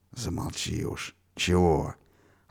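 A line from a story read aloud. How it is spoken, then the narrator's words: Sharp rebuking whisper. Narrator (Russian): Отдернул его тоже шепотом другой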